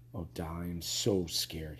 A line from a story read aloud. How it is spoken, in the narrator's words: moaned